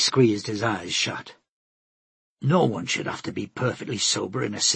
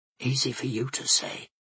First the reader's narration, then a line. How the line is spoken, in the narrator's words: he whispered back